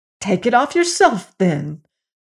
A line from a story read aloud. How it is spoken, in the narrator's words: cried Fiorimond, who was now so angry